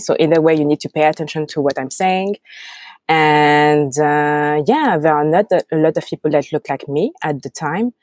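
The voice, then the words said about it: French accent. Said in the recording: “I have my French accent. So either you find it a little bit funny or you have difficulties understanding me.”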